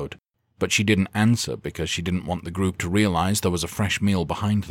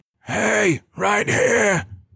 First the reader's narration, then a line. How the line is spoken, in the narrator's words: Jax cried